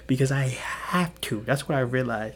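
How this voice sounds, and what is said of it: Whispering, kept deliberately low. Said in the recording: “You know why I'm whispering? You know why I have to whisper? ... I have to force myself to stay low”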